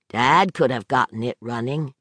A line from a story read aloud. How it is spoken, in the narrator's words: Brett said flatly